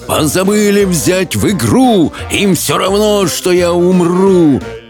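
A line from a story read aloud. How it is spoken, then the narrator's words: Roaring. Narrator (Russian): проревел Хоул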